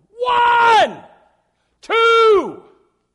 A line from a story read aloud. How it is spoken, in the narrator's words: yell from the sideline